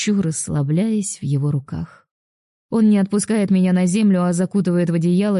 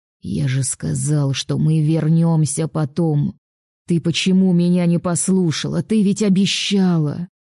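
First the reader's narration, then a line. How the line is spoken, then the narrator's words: Less menacing. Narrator (Russian): Произносит уже не так грозно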